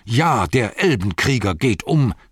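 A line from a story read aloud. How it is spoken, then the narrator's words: Shouting. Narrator (German): schrie er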